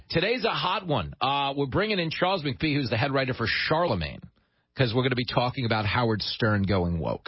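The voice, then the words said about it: Long Island accent. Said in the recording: “a guy with my accent ... somewhere from Levittown”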